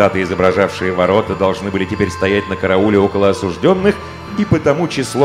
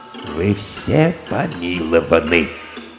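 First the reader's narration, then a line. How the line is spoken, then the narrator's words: Quiet, timid. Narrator (Russian): король, тихонько проговорил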